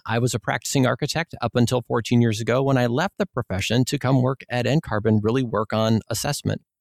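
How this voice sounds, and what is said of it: Minnesota accent with long O's. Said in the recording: “you maybe can tell from my accent, I'm from Minnesota. So I have some long O's every now and then.”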